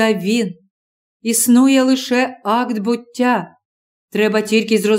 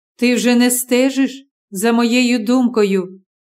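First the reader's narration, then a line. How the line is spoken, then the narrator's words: Plain. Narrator (Ukrainian): сказав він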